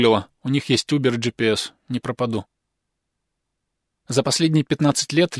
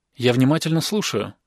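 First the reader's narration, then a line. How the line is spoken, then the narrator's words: Plain. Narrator (Russian): сказала Ли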